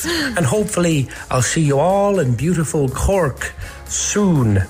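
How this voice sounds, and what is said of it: Put-on Cork accent. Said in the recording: “such a convincing Cork accent ... he sounded like he was trying to put on an accent”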